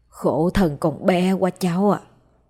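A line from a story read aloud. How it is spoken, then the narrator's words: Old woman whispering. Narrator (Vietnamese): Bà thì thầm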